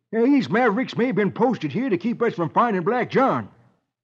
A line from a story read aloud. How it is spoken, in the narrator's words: California snorts